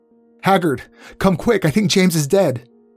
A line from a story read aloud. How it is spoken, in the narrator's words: Sharon's screams as she yelled on the phone